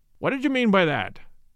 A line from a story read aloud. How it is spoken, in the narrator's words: he said sharply